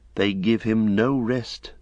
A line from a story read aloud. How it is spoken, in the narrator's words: some murmured